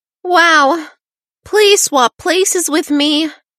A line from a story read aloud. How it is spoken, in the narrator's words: Celia sighed